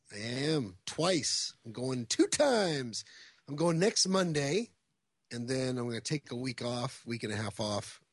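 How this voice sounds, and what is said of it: Scratchy, raspy voice. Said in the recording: “hear the scratchiness in my voice ... I have a polyp or a node ... There's something in my throat”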